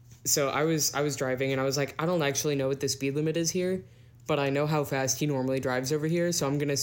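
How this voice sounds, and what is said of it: Usual voice. Nothing is said of it.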